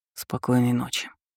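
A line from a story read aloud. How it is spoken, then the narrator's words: Man's whisper. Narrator (Russian): шепнул мужчина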